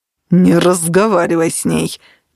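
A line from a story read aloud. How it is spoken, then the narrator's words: Growling. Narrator (Russian): прорычал Оливер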